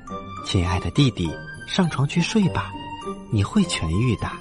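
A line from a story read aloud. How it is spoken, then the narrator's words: Whisper. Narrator (Chinese): 她小声的说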